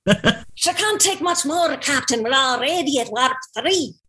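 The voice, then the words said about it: Put-on Scottish accent. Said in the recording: “Do you want to hear my Scottish? ... This is my Star Trek one.”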